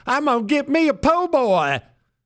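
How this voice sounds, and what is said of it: Put-on Cajun accent. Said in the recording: “Throw on that Cajun accent.”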